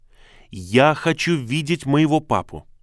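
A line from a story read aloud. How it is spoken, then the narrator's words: Commanding tone. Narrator (Russian): Грейси сказала приказным тоном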